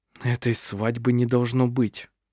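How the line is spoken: Quiet speech. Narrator (Russian): тихо сказал он

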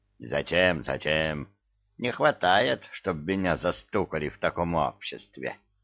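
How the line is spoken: Grumbling. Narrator (Russian): бурчал Кощей

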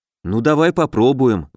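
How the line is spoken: Sighing. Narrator (Russian): вздохнул Алеша

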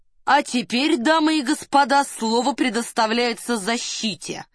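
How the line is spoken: Loud announcement. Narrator (Russian): громко объявил Девре

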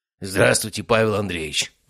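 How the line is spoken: Hoarse. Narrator (Russian): прохрипел он

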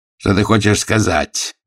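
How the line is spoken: Growled. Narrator (Russian): зарычал он

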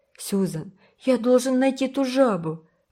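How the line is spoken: Desperate exclamation. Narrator (Russian): воскликнул Уолтер с отчаянием в голосе

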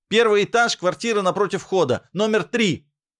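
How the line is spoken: Shouting through door. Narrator (Russian): крикнул я сквозь створку

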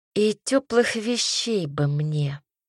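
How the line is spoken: Sigh. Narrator (Russian): вздохнула я

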